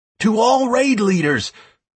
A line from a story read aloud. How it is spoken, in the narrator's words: I shouted through the heralds